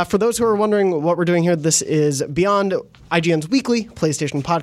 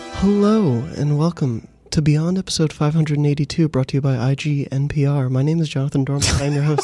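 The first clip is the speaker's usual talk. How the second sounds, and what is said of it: Soft, breathy NPR-style radio voice. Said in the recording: “Is this like your bedroom voice? ... NPR voice. ... This turns into some real ASMR stuff very quickly.”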